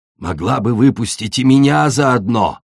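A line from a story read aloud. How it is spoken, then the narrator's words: Hissed. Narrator (Russian): прошипел песчаный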